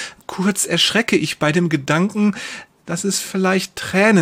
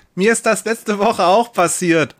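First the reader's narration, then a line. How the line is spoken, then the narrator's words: Woman calling out. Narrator (German): ruft eine Frau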